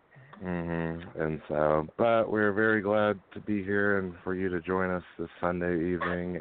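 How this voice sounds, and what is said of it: Sick, under-the-weather voice. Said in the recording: “Might be able to tell from my voice, though, a little bit under the weather the last few days ... I can tell”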